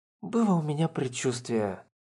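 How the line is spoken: Gloomy mutter. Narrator (Russian): с каким-то унынием пробормотала Лирин

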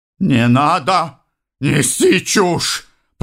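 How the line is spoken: Growl. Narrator (Russian): прорычал сенатор

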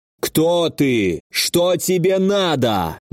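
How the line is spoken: Menacing thundering voice. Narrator (Russian): Грозный голос Альго прогремел в пространстве

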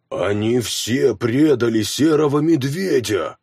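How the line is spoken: Growled. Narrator (Russian): прорычал Хроки

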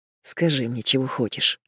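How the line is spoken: Murmur. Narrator (Russian): бормочет он

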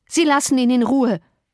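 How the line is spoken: Call. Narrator (German): rief

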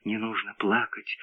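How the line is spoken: Whisper close to ear. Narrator (Russian): Чей-то голос прошептал у него над ухом

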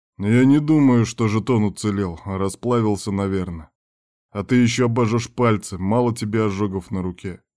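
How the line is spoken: Grumbling. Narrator (Russian): ворчал Кирк

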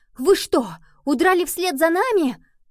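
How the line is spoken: Excited exclaiming kittens. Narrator (Russian): Котята взволнованно восклицали

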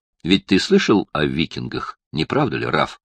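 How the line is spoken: Plain. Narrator (Russian): спросил Барни

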